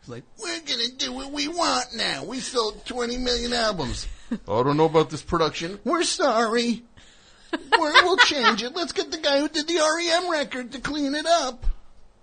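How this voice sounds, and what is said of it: Imitates another person's voice. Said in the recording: “I don't know why I'm doing that voice for him.”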